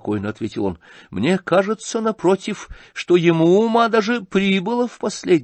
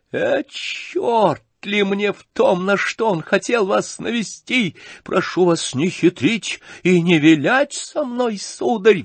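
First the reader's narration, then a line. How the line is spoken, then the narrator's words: Shrill squeal. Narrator (Russian): взвизгнул Ганя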